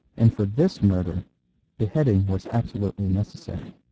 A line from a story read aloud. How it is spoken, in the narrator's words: said Brown calmly